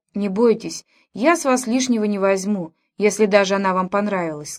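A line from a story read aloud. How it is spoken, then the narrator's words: Plain. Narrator (Russian): сказал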